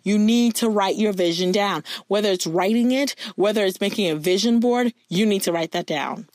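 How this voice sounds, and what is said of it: Loud, passionate, near-yelling delivery. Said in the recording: “I feel like I'm yelling, like, which I am ... I just am really passionate about this”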